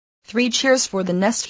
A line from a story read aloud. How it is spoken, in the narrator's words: he exclaimed